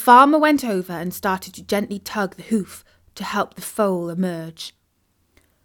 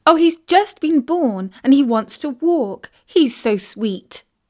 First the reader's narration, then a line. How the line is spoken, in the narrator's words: exclaimed Isis